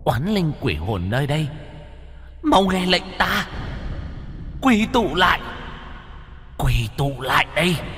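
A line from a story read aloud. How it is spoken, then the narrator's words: Loud echoing shout. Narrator (Vietnamese): Mụ hét lớn, vang vọng cả ngọn đồi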